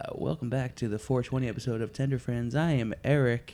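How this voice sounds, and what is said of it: Sultry radio announcer voice. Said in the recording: “I feel sultry now. ... Really leaning into the radio voice.”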